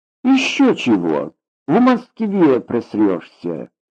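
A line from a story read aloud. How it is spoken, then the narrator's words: Tossed off dismissively. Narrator (Russian): Бросила она на ходу, даже не повернув головы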